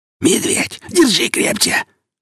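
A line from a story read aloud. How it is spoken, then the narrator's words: Irritated wheeze, no longer hiding. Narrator (Russian): Раздраженно просипел тот же голос, уже не особо таясь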